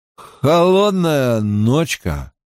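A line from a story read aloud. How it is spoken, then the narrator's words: Drunken voice. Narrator (Russian): произнес он нетрезвым голосом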